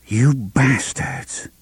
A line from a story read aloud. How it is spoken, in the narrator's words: she murmured